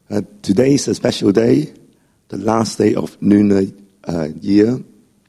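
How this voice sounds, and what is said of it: Voice affected by starting cold. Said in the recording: “Excuse my voice. Just starting to have a cold.”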